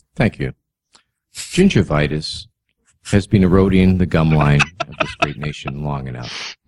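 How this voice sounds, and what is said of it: Well-spoken radio-style voice. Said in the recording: “he's very well spoken ... he's almost got a radio voice.”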